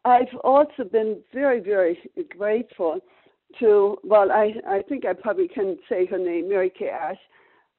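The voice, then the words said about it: German accent. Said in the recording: “you can hear by my accent, I grew up in post-war Germany”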